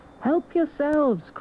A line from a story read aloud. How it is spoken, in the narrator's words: cried Mole